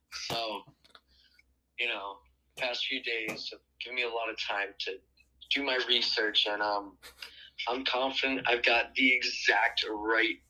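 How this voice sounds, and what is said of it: Weak, mostly gone voice. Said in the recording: “He currently has COVID right now ... my voice is kind of gone.”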